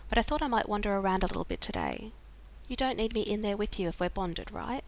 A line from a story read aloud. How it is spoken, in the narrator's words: John said hastily